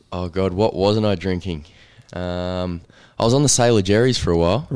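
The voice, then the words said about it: Rusty, strained voice. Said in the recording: “my voice is a bit uh, screwed from last night. It's just a bit rusty.”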